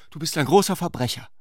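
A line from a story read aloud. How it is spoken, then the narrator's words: Called out. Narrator (German): rief sie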